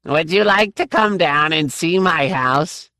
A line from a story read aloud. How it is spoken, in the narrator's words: the pear-shaped man asked in that high, whiny voice